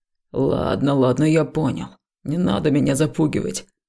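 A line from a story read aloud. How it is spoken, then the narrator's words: Mutter, young man, feigned calm. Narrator (Russian): пробормотал парень, стараясь выглядеть спокойным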